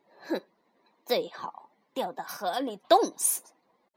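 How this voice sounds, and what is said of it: Quiet muttering. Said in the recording (Chinese): “小声嘀咕着”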